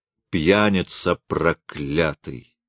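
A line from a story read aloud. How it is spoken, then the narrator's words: Calm. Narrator (Russian): спокойно говорит она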